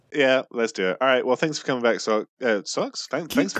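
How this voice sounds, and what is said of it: Usual voice. Nothing is said of it.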